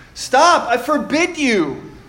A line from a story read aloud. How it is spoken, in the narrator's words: yelled Uncle Vernon in panic